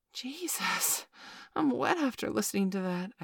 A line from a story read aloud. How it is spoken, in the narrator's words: I gasped